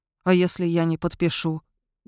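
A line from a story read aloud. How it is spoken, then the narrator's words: Muffled, hollow question. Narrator (Russian): глухо спросил он наконец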